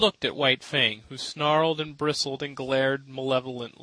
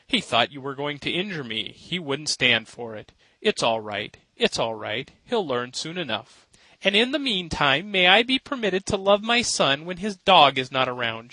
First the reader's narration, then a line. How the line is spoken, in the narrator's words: laughed, though she was pale and weak from the fright